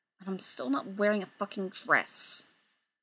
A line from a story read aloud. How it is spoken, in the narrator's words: They'd obviously been on the bus for too damn long, grumble